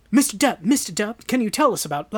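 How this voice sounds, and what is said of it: Poor imitation of a reporter. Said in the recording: “that was a terrible impersonation.”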